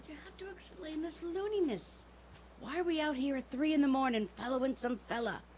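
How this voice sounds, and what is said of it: Whispering. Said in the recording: “I told you to whisper, didn't I now? ... all right, I'll whisper.”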